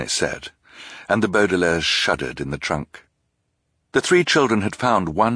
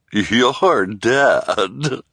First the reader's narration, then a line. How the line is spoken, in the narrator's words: said with a nasty chuckle